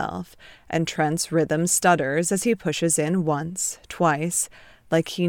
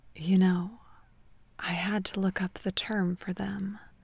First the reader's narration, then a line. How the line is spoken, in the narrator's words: Ted whispers